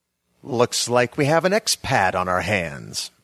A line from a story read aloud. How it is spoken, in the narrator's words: said a sneering voice I recognized as Adam Kilkenny